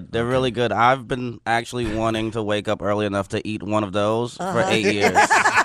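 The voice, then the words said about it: Mixed New York and country twang. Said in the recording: “Is that a New York accent? ... it's got a little twang to it. I say certain words real New York, and then I say certain words real country.”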